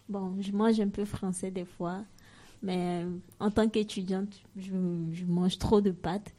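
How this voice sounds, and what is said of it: African-accented French. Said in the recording (French): “comme vous aurez dû l'entendre, accent africain”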